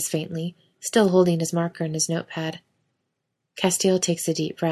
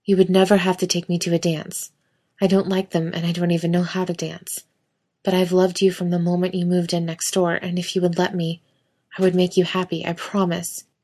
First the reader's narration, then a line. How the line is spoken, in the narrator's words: Castile blurts out, and he thinks he's having a heart attack